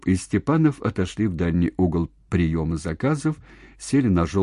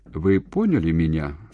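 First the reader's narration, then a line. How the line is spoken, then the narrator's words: Dry, curt. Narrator (Russian): сухо осведомился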